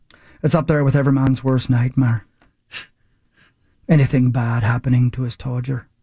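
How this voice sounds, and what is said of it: Put-on Scottish accent. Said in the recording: “By great request. I'm going to do a Scottish accent.”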